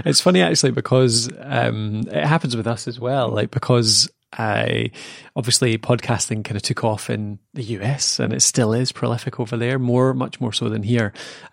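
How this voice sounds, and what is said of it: Lilting Scottish accent. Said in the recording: “I love the lovely Scottish lilt that's coming through your microphone at the moment.”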